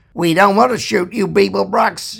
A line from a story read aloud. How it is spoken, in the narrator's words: shouted the figure